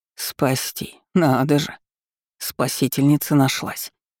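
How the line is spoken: Old woman grumbling. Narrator (Russian): буркнула старуха

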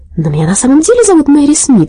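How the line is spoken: Exclaiming. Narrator (Russian): воскликнула Мэри, торопясь за директрисой

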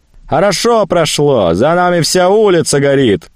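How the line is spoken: Shout from crowd. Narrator (Russian): крикнул кто-то из толпы

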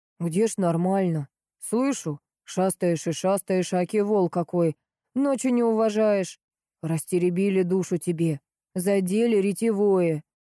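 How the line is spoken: Grumbling groom. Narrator (Russian): разворчался совсем уж конюх

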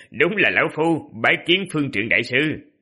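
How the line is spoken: Laughing loudly. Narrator (Vietnamese): Vân Dịch Lam cười lớn, nói

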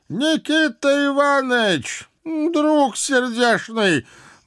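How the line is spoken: Muffled voice from above. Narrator (Russian): глухо раздалось откуда-то сверху

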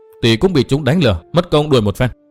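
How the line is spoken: Resentful reply. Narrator (Vietnamese): hậm hực đáp

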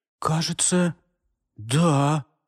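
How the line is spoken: Uncertain reply. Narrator (Russian): неуверенно ответил юноша

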